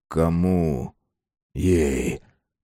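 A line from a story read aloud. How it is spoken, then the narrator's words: Whispered. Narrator (Russian): прошептал Кайсаров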